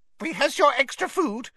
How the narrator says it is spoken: squeaked an elf

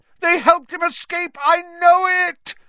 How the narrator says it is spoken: Snape howled

